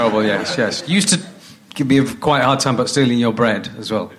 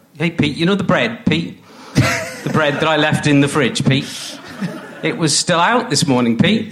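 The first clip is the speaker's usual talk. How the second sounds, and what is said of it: Imitates another person's voice. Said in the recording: “do you mind if I do an impersonation of you? ... this is going to be really awful”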